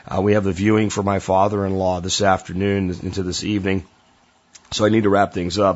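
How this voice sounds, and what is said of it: Stressed, strained voice. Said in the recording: “my voice is kind of stressed”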